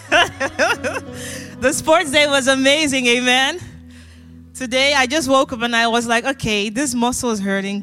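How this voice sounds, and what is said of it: Hoarse, partly lost voice. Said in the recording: “my voice is a bit gone”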